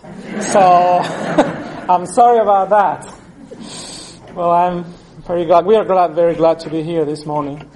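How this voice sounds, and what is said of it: Non-native English accent. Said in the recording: “no other recorders in the world can change my accent ... my English has not improved any in these years”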